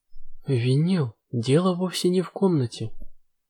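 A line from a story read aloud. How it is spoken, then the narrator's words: Quiet. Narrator (Russian): тихо произнесла принцесса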